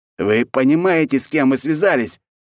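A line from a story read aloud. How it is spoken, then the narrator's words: Shouting. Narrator (Russian): закричал Алексей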